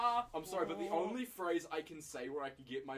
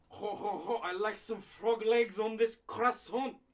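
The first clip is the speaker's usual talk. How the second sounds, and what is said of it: Put-on French accent. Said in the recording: “my French accent”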